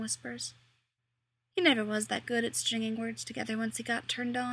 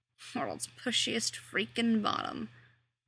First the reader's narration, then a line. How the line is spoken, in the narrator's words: Dean mutters